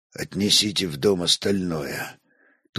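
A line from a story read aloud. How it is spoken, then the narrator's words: Dull-voiced order. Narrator (Russian): тусклым голосом велел он Руяру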